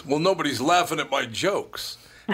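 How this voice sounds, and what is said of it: Rodney Dangerfield impression. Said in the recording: “great impression, by the way. ... I could do it a lot better. That was kind of a lame one.”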